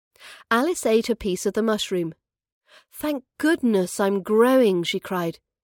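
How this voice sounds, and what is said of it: British accent. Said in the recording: “British accent training”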